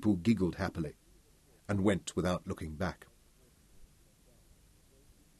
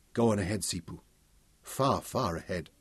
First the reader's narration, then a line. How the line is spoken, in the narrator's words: Kelly said huskily